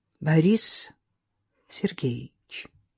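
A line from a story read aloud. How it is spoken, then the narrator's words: Calm, dignified. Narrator (Russian): спокойно и с достоинством произнесла Оксана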